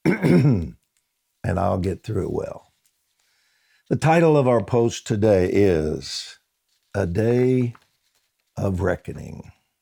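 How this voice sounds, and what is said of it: Strained, worn-out voice. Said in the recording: “forgive my voice. ... I have worked it hard the last few days”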